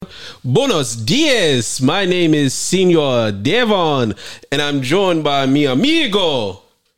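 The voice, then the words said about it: Bad put-on Spanish accent. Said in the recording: “that's the nastiest accent.”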